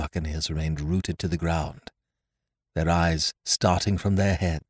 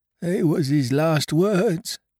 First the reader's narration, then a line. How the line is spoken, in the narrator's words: moaned Morgan